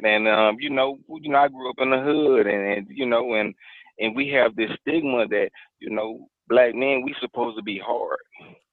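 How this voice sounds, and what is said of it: Houston accent. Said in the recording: “Oh, you from H-Town. I knew I recognized that accent.”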